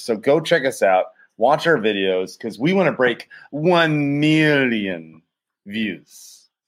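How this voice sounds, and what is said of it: Bad Dr. Evil voice impression. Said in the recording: “he was trying to do a Dr. Evil thing ... That was a bad Dr. Evil impersonation.”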